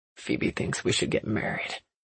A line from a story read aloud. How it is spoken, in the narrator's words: mumbled